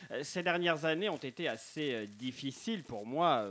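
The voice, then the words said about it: Put-on North African French accent. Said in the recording (French): “Accent Maghrébin”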